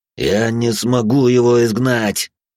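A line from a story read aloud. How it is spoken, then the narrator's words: Strained through gritted teeth. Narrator (Russian): Сквозь зубы выдавил отец Марк, отчаянно держа вместе с напарником свою часть магических оков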